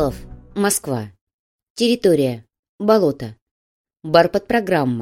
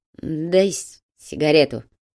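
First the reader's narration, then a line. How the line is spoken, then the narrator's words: Hoarse request. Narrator (Russian): хрипло попросила Петра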